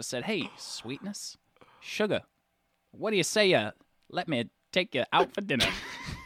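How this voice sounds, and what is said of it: Put-on accent, drifting. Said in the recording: “I don't know where my accent is anymore”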